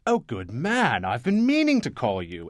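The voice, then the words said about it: Roosevelt-meets-London posh accent. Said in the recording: “he had an accent too ... a kind of a cross between Franklin Delano Roosevelt and London.”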